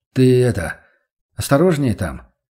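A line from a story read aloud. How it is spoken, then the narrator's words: Young man's forced, perfunctory farewell. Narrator (Russian): выдавил парень из себя дежурное напутствие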